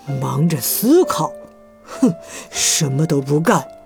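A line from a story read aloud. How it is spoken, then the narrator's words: Low muttering. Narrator (Chinese): 大老鼠低声咕哝着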